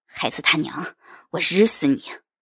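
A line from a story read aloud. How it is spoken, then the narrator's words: Roar. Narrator (Chinese): 永军叔叔 吼了一声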